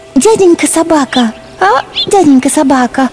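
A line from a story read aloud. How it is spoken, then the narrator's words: Timid beginning. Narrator (Russian): Робко начала она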